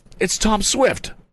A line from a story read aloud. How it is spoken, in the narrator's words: cried